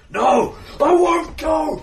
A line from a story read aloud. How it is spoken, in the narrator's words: the sparrow after sparrow after sparrow hits him, claws his flesh, and he screams